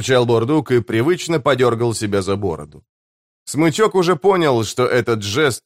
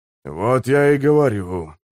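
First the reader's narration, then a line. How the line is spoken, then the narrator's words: Sighing. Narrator (Russian): вздохнул Гесслер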